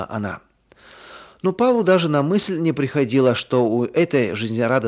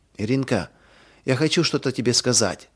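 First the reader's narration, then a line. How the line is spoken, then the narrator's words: Whisper. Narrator (Russian): прошептала она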